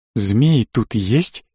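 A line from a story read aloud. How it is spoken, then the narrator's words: Whispered question. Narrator (Russian): почему-то шепотом поинтересовался я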